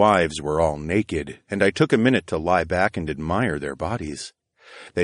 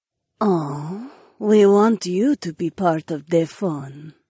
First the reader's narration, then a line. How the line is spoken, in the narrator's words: Jessamine purred with a sly smile